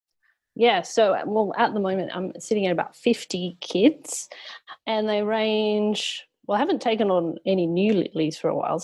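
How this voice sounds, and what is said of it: Australian accent. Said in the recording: “People have already heard your Australian accent”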